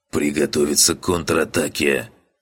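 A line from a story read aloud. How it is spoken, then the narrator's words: Hoarse, strained. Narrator (Russian): прохрипел Череп, с трудом поднимаясь на ноги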